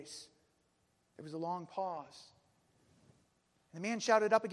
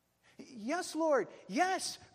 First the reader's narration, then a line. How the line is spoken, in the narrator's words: cried the man